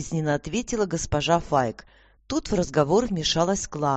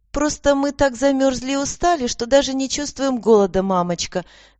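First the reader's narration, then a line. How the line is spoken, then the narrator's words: Laughing. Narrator (Russian): засмеялась Аня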